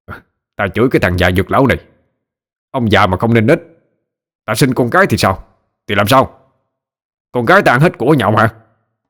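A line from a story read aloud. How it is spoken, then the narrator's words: Angry shout. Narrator (Vietnamese): Hắn quát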